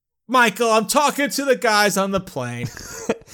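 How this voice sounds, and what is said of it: Imitates another person's voice. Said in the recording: “my very good Dustin Hoffman impression ... it's a great Dustin Hoffman impression”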